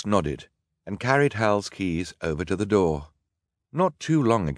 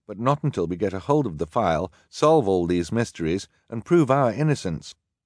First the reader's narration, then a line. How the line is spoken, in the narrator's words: Sunny said firmly